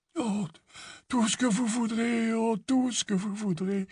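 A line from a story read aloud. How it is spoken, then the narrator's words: Weak voice. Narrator (French): répondit d'une voix faible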